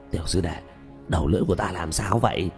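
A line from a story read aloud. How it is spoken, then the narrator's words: Hoarse question. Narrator (Vietnamese): dùng âm thanh khàn khàn hỏi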